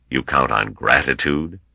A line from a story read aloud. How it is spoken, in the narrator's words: asked Gorov coldly